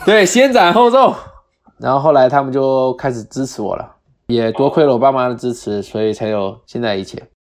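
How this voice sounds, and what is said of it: Mandarin with Cantonese accent. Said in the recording (Chinese): “你听起来完全是一个广东口音”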